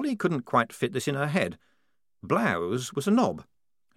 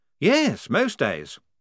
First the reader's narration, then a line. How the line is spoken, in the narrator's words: said Blouse happily